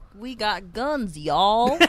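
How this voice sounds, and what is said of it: Mock American country drawl. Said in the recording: “They do a country accent with the drawl and everything”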